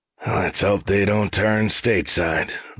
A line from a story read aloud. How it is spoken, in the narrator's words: the zombie-ish officer rumbled